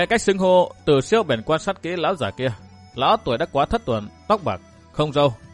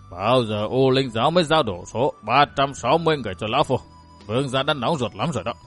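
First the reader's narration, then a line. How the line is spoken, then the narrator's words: Grumbling. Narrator (Vietnamese): Lão ta cằn nhằn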